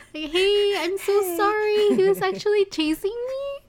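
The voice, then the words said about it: Polite customer service voice. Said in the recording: “customer service voice”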